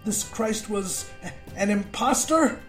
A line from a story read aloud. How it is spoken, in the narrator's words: I yelped between gagged breaths